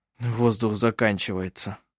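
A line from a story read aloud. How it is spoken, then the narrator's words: Muttering. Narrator (Russian): пробормотал Коль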